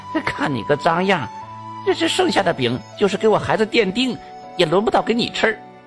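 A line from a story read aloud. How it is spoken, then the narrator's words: Impatient, shrill, sharp. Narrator (Chinese): 这大姐不耐烦了，尖声辣气的就说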